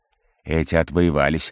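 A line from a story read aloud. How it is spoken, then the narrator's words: Chuckling. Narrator (Russian): хохотнул Халлас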